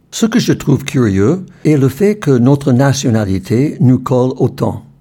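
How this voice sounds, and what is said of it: American accent speaking French. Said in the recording (French): “oh, vous avez un accent ... Vous êtes anglais? Non, je suis né aux États-Unis. ... Oh, américain!”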